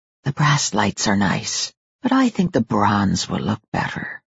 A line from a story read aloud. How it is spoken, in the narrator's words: Jack whispered